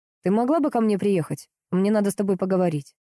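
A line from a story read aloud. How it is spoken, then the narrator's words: Sudden stern serious question. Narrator (Russian): вдруг спросил очень строго и серьезно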